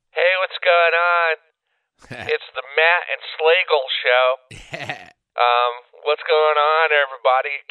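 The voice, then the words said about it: Imitates amateur internet radio hosts. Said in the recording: “my impression of a lot of the internet radio shows that I heard over the weekend”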